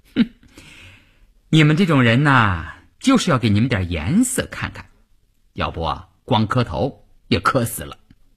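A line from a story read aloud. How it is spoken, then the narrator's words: Laughing. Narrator (Chinese): 乌云笑了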